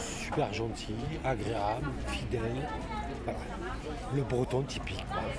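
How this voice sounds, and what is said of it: Southern French accent. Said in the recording (French): “avec mon accent du sud”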